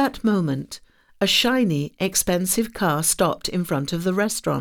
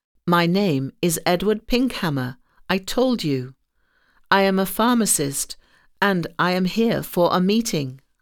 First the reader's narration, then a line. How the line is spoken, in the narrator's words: I said